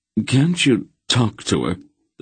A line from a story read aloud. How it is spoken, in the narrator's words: the small man pleaded with Geryon